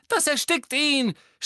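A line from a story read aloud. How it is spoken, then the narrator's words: Injured scream. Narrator (German): schrie Ginny, die mit ihrem gebrochenen Knöchel wie gelähmt am Boden lag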